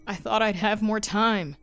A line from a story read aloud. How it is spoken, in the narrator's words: he cried out in the church